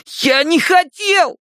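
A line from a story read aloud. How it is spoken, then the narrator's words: Squealed. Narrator (Russian): взвизгнул Стэн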